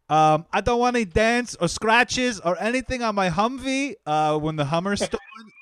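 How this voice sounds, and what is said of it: Impression of a movie character. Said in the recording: “Humvee guy ... That was a great impression.”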